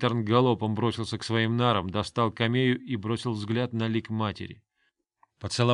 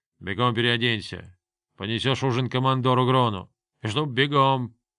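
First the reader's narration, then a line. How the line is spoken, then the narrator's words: Irritated grunt. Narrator (Russian): старший повар раздраженно буркнул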